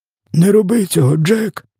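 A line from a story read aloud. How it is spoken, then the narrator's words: Hoarse. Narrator (Ukrainian): хрипів він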